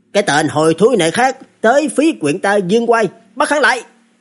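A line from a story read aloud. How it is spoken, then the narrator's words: Constable shouting. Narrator (Vietnamese): Những nha dịch kia, một người trong đó quát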